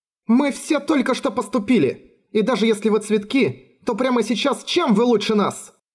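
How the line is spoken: Clear carrying voice, not shouting. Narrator (Russian): не кричала, но ее голос был хорошо слышен во всем школьном дворе

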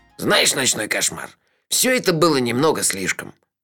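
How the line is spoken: Angry. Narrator (Russian): сердито сказал Мелифара

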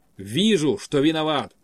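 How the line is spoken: Sudden sharp tone change. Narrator (Russian): вдруг резко сменил тон Козырев

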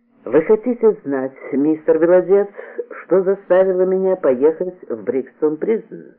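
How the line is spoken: Meek, calm question. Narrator (Russian): спросил Тейлор, так кротко и спокойно, будто только что и не смеялся

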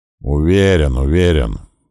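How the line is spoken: Grumbling. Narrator (Russian): проворчал я

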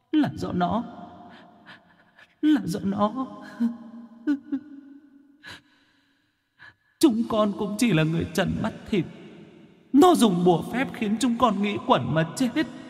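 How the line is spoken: Sobbing ghostly pleading. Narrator (Vietnamese): Vong hồn mẹ con mụ cầm khóc thút thít

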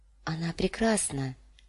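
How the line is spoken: Muttered. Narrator (Russian): пробормотала Дэнни

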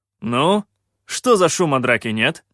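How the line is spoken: Stern call. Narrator (Russian): строго окликнул я их

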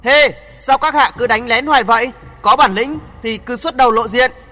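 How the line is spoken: Stern loud voice. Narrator (Vietnamese): Y nghiêm giọng lớn tiếng nói

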